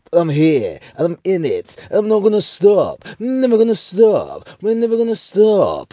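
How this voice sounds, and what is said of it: Radio DJ voice. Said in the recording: “Why am I doing this in the radio voice? ... It's the DJ voice. When I'm usually driving, that's how the DJ sounds.”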